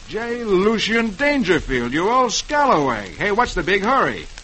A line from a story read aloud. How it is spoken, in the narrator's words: Roy exclaims